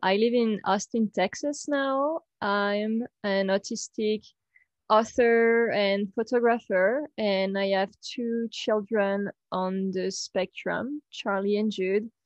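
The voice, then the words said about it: French accent. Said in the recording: “I'm French. You will hear my accent.”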